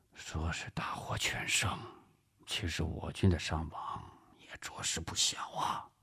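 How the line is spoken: Sighing, lowered voice. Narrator (Chinese): 胡琏叹了口气，压低声音说

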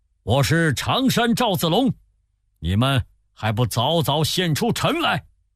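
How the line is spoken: Loud shout. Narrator (Chinese): 赵云直奔天水城下，高叫

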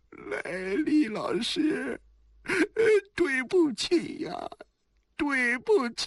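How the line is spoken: Nervous, near tears. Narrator (Chinese): 司马懿的额头冒着虚汗，他快要哭出来了

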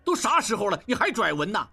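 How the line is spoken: Angry. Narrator (Chinese): 应震怒道

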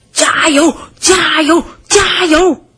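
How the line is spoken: Repeated shouting. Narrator (Chinese): 胖子伯吉斯嘴里还不停地喊着

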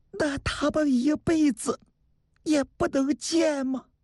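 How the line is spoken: Trembling voice. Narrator (Chinese): 菊花的声音颤抖了

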